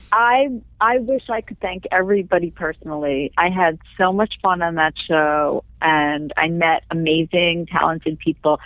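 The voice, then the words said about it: Nasal, congested voice. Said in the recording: “I have cold right now, which is why I sound nasal.”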